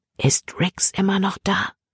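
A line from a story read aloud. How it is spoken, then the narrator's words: Whisper. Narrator (German): flüsterte Libby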